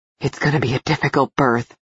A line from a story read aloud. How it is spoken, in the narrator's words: Cal muttered, looking pale with concern